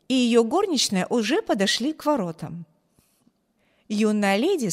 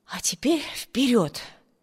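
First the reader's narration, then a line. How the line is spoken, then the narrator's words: Muttering. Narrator (Russian): пробормотала она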